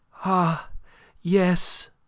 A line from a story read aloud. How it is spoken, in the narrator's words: cried Aline